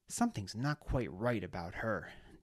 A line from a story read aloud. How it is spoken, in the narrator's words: Deliratus muttered